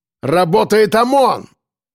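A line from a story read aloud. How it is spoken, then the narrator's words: Growl. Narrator (Russian): Прорычал он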